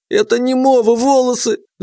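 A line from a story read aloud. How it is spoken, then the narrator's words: Shout. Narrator (Russian): закричала Глашка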